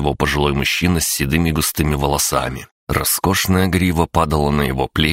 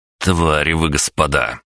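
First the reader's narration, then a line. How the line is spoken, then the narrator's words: Angry snarl. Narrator (Russian): злобно оскалился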